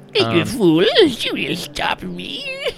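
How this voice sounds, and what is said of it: Performed character voice. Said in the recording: “I got to do the Quinn voice.”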